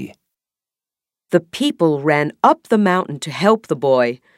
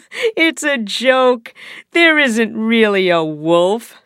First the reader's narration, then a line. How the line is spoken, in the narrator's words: said the boy, laughing